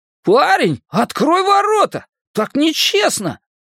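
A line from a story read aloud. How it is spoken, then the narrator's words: Shout of disbelief. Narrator (Russian): Не в силах поверить в случившееся, он крикнул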